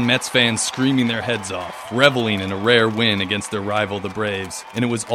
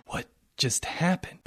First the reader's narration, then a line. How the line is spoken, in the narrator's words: Ezekiel whispered to himself